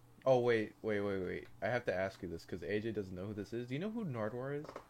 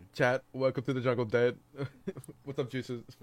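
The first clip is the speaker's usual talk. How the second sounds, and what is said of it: Imitates another person's voice. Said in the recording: “I'm doing an XQC ... impression.”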